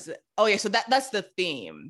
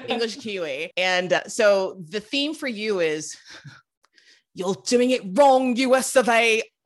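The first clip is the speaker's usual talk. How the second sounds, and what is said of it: Attempted British accent, possibly poor. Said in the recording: “It was a good British accent. ... No, it wasn't”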